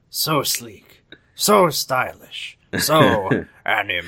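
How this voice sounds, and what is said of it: Imitates a cartoon character's voice. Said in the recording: “I don't think I've done a Strong Bad voice on this podcast yet ... That was like, not my best”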